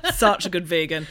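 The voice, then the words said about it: Put-on stereotyped vegan character voice. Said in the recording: “I don't know why I'm doing that voice because that's what vegans sound like.”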